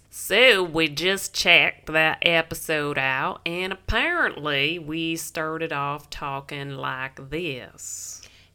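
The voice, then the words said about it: Put-on Southern belle accent. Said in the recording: “talk like Southern Belles”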